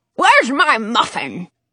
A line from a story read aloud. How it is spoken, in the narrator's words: Dottie snaps at Lolly